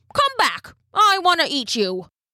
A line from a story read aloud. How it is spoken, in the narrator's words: called out